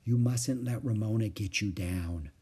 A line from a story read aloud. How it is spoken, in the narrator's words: whispered Mother